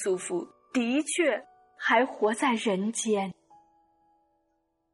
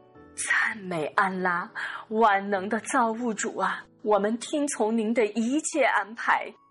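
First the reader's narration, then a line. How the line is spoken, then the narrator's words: Relieved, heartfelt fervent praise. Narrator (Chinese): 他长吁了一口气……万分感谢安拉的慈悯，发自肺腑的赞叹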